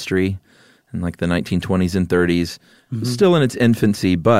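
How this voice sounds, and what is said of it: Usual voice. Nothing is said of it.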